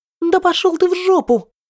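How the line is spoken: Shrieked. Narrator (Russian): взвизгнула Юэ-Юй

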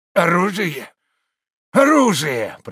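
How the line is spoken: Hoarse rasp. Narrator (Russian): прохрипел он

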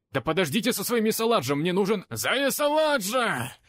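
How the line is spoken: Hunters shouting in unison. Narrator (Russian): Синхронно крикнули охотники

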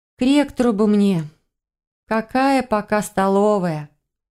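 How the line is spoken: Sigh. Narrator (Russian): вздохнула я

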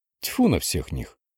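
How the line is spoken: Snorting. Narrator (Russian): фыркнула она

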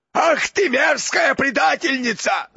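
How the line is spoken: Enraged roar. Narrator (Russian): взревел Гаунт, выходя из себя

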